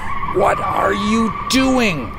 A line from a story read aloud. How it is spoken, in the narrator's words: I shouted over the sounds of screeching tires and the car rattling like it was about to come apart